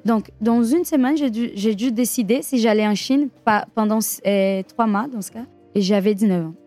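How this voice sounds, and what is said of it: Brazilian accent speaking French. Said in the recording (French): “le magnifique accent brésilien”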